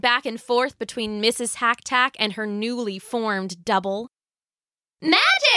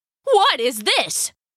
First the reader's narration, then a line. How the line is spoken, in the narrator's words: cried Mr